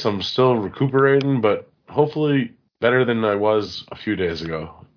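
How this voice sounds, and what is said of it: Voice affected by a cold. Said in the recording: “surviving a cold. I had a cold all last week... if you hear it in my voice”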